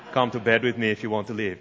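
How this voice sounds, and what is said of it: Arnold Schwarzenegger impression. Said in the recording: “I want to do it in an Arnold Schwarzenegger voice.”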